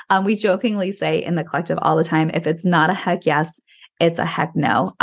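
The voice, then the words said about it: Slightly hoarse, recovering voice. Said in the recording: “excuse me, my throat's, my voice is still coming back from my cold”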